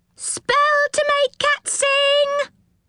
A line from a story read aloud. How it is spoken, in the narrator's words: cried another gnome